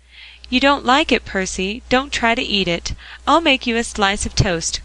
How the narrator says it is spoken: cried Polly

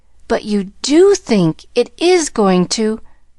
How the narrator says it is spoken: she cried joyously

